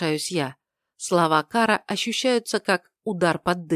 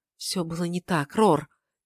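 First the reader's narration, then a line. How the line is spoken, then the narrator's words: Quiet. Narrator (Russian): тихо произносит Кара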